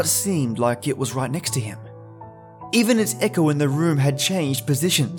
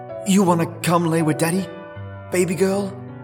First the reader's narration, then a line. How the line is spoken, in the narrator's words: asked hoarsely